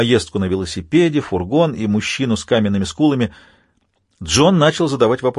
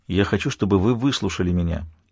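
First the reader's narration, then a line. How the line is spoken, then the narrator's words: Calm voice. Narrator (Russian): спокойным голосом сказал доктор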